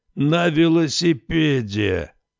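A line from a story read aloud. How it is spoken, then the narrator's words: Deafening boom, old man. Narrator (Russian): оглушительно прогудел старик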